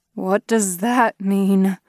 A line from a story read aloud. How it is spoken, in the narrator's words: Kristoff groaned